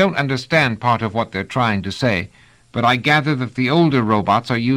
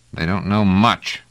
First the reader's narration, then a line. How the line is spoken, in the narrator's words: growled Trevise